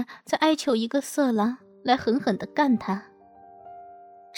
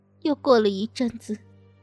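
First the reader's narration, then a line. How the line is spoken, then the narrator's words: Pleading, coquettish. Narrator (Chinese): 婉华以近乎哀求的娇嗔的说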